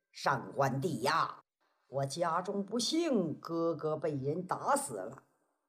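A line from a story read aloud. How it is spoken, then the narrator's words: Long sigh. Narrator (Chinese): 哎，二爷长叹一声，说是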